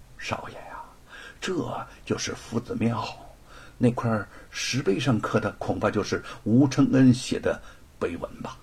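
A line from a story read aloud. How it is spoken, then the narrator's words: Whispering. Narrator (Chinese): 贼儿悄声的向罗庞说道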